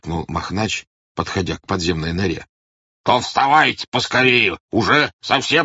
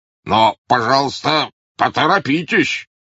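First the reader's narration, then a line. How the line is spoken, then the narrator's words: Grumbled. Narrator (Russian): проворчал он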